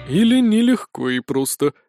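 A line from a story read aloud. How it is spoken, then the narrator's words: Sergeant breathing out. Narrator (Russian): выдохнул сержант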